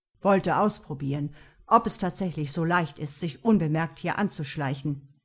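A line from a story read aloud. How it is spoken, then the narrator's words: Grumbling. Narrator (German): brummte er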